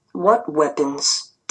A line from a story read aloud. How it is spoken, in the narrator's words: Dad asked calmly